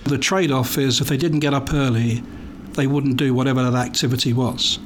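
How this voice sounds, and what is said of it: English accent. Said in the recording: “You don't have a Plano accent. ... a little place called England”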